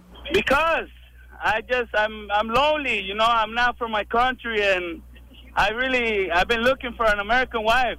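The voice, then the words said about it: Speaks with a foreign accent. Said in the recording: “It's cute if you have an accent.”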